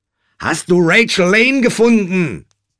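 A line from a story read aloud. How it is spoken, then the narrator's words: Shouting into phone. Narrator (German): schrie Josh ins Telefon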